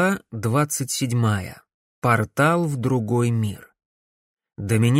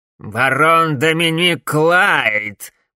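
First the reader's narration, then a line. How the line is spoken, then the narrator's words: Grating, creaky old voice. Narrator (Russian): проговорил старик скрипучим голосом, от которого передернуло абсолютно всех, будто кто-то царапал вилкой по тарелке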